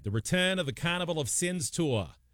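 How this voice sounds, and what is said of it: Bad put-on New England accent. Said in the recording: “that's a bad New England accent ... You would think I'd have a better New England accent”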